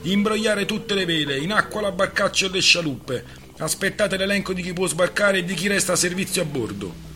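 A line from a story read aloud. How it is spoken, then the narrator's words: Shouting. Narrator (Italian): Calloa gridò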